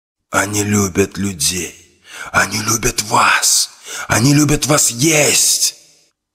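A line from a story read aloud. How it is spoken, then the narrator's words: Hissing inner voice. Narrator (Russian): прошипел голос в голове Мурмана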